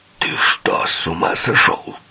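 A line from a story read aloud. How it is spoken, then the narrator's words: Hiss. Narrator (Russian): прошипел Харди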